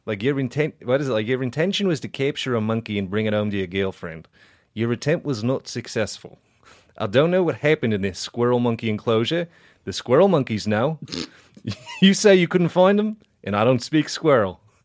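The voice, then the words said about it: Put-on Southern US judge voice. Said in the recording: “Should I just read it in like a southern judge voice? ... Just do Southern judge.”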